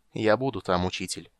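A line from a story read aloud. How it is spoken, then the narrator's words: Plain. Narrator (Russian): сказал он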